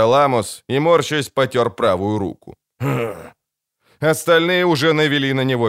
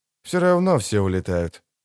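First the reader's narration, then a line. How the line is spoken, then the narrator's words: Quiet. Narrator (Russian): тихо сказал Холден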